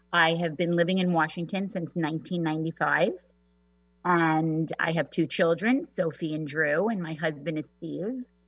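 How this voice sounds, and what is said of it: New York accent. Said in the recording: “I'm a native New Yorker, if you couldn't tell from my accent.”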